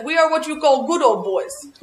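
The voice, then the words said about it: Thick Italian accent. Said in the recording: “In their Italian accent... very thick Italian accent”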